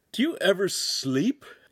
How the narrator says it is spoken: Hansum yawned

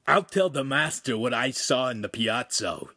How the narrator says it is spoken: Ugolino growled

